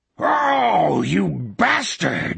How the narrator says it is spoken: Morgan Sloat bellowed

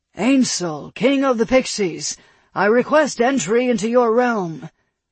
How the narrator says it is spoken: Alston called out in a booming voice

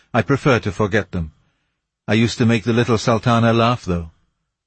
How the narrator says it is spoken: he replied in a sadder tone

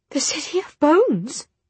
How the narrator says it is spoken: she whispered

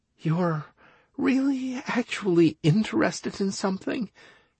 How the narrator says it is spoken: muttered Anastaria

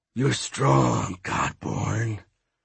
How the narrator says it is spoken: a pooch hissed

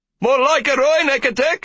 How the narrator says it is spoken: someone shouted

